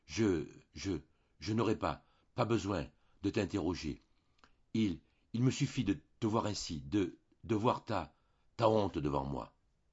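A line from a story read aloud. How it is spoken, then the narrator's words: Voice broken by emotion. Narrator (French): elle prononça, d'une voix coupée par l'émotion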